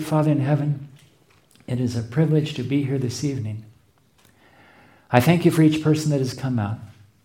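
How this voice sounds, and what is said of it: Noticeable accent. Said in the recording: “help me to speak in such a way that my accent will not get in the way of people understanding”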